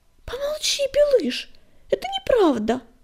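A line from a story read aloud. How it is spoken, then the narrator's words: Exclamation. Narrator (Russian): воскликнула она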